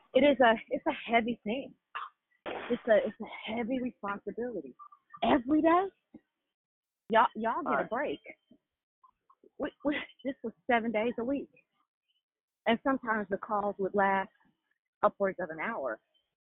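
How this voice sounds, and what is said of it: Out of breath, breathy speech. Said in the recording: “I'm out of breath.”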